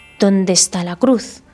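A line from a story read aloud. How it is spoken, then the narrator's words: Whisper through teeth. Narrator (Spanish): susurró entre dientes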